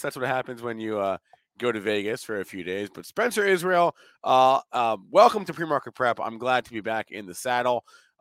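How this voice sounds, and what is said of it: Hoarse voice. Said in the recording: “my voice is a little bit hoarse.”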